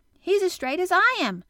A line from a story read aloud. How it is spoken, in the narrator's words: cried Dickon